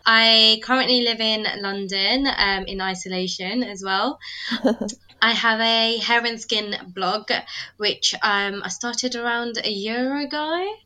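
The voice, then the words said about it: British accent. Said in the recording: “I'm British, as you can maybe tell from my accent.”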